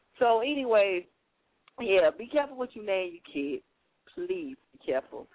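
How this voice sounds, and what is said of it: Slight country accent. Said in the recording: “I have a little country accent ... my little country accent”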